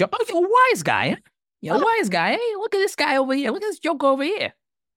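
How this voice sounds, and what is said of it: Put-on Boston Southie wise-guy accent. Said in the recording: “slip into an accent ... you come off as like someone who's a Southie from Boston there ... You do a little bit of Goodfellas”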